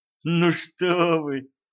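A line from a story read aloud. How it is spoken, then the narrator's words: Laughing. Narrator (Russian): Мисс Джонс засмеялась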